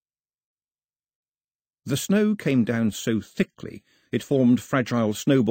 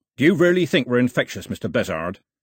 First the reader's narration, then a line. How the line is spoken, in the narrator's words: barked